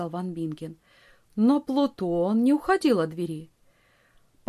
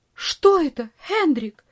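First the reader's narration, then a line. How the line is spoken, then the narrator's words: Aunt crying out. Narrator (Russian): вскрикнула тетушка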